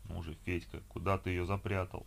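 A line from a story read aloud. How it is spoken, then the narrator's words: Muttering. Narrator (Russian): Бормотал он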